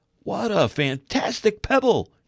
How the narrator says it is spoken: he exclaimed

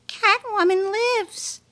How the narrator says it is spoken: took a quick gulp of funny gas, and squeaked out

